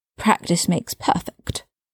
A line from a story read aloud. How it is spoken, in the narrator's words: he said bitterly